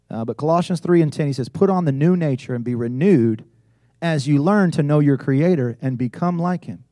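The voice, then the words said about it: Rural country accent. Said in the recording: “I was raised in the country. And as you can tell from my accent”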